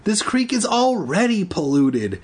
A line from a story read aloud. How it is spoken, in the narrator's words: Andy exclaimed